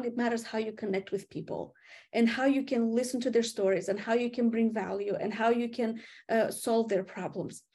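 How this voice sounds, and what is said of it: Slight Eastern European accent. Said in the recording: “I have an accent... I still have traces of my Eastern European accent... I don't sound like a Southerner”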